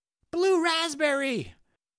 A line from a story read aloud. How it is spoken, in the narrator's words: shouted a Jonathan